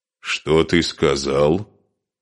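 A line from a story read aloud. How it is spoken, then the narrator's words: Grim, menacing. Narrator (Russian): Мрачно с угрозой произнес Асмунд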